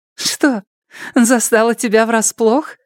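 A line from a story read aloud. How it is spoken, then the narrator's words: Smug giggle. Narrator (Russian): Она хихикнула, довольная собой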